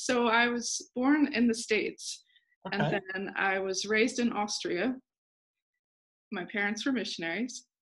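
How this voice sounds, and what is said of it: Unusual, hard-to-place accent. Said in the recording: “we both have funny accents, so hopefully our viewers and listeners will be okay with our unusual accent.”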